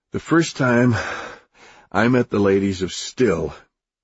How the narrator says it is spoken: he laughed, wheezed

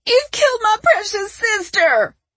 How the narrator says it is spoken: She screamed

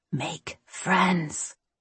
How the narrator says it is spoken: she whispered

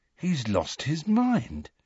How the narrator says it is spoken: said Ron, in an almost awed voice

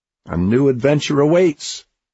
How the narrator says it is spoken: Oliver cried

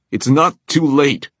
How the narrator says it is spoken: Magnus shouted

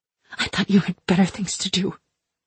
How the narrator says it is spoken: I hissed

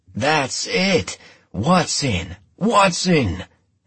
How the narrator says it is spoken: and the rest of the team roaring

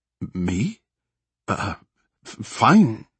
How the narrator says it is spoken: she sputtered, understandably surprised by the question

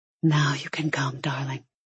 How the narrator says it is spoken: He whispered

